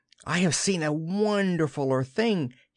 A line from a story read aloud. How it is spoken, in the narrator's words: he cried